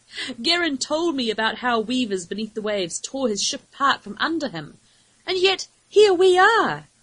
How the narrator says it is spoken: exclaimed grinning

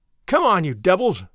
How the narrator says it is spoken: he cried

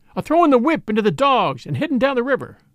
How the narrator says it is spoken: someone cried

